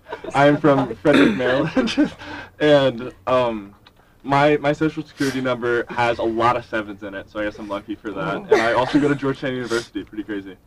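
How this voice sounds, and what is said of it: Hoarse, partly lost voice. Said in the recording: “I've kind of lost my voice”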